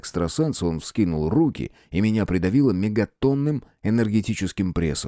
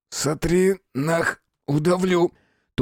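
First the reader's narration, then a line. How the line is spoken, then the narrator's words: Hissed. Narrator (Russian): Только и смог прошипеть я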